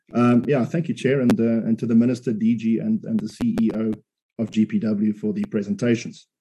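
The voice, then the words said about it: Sore, strained throat voice. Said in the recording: “My voice is a bit, my throat is a bit sore, so apologize if I splutter from time to time.”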